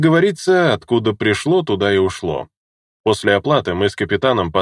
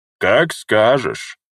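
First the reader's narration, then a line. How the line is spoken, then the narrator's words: Dwarf's smirking grunt. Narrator (Russian): хмыкнул гном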